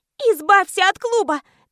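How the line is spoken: Irritated shouting. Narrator (Russian): кричала я раздраженно

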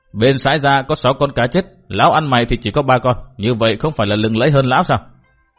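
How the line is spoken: Furious, raging. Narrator (Vietnamese): Thiết Phát Đầu Đà tức giận như điên cuồng

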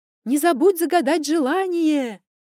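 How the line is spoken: Shouting. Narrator (Russian): крикнула Наташа

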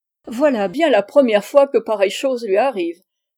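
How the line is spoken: Exclaiming, laughing heartily. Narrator (French): s'écria Patterson, riant de bon cœur

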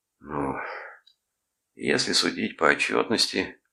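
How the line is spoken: Glum. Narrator (Russian): уныло ответил Брэд

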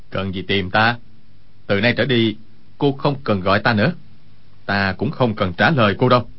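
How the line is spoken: Cold. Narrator (Vietnamese): Quách Tĩnh lạnh lùng nói

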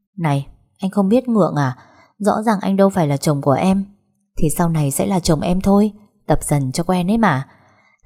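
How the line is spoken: Heavy sighing. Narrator (Vietnamese): Vân Y thở dài nườm nượp ... mà nói

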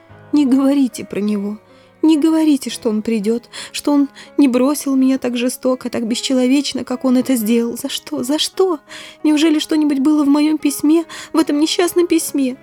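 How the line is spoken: Voice broken by sobs. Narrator (Russian): рыдания пересекли ее голос

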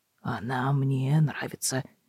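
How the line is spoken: Grumbling mutter. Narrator (Russian): ворчливо пробормотал он

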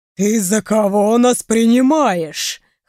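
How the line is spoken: Chuckle then dragon roar. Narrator (Russian): Хохотнул алый дракон и взревел

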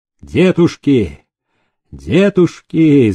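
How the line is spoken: Shouting. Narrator (Russian): закричал он

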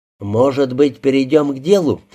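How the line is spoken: Plain. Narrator (Russian): спросил Кутов

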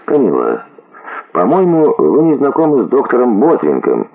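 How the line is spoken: Calm interrupting voice. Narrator (Russian): прервал начавшееся препирательство спокойным голосом лорд Уорвик

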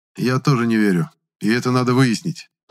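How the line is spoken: Sighed. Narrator (Russian): вздохнул Гудков

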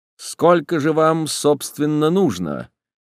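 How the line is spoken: Cold, detached question. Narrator (Russian): Вопрос был предложен холодным, совершенно безучастным тоном

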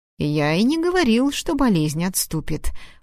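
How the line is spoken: Snide retort. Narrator (Russian): парировал, ехидно усмехнувшись

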